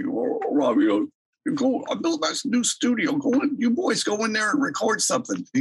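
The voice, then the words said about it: Imitates another person's voice. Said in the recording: “my Albert impression isn't that great ... So I should work on a better impression.”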